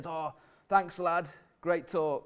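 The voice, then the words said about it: Old northern man's voice, slightly Scottish-sounding. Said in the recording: “He wasn't Scottish, if that was sounding a bit Scottish. He's from Hull.”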